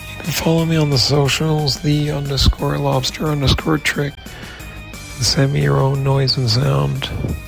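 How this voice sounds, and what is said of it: Hoarse, weakened voice. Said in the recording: “I've lost my voice”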